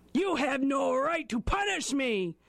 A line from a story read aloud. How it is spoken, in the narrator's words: he bellowed at Gluskomba